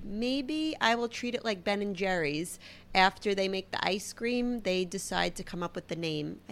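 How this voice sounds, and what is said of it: Heavy Brooklyn accent. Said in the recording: “my Brooklyn accent ... I've heard it's very heavy”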